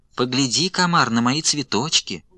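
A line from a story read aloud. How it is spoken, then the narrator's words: Sweet little voice. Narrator (Russian): Отвечает травинка сладким голоском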